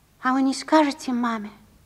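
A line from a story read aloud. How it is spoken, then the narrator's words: Plain question. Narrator (Russian): спросил он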